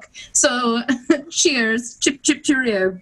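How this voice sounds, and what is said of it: Put-on English accent. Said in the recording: “All I do is talk in an English accent this week.”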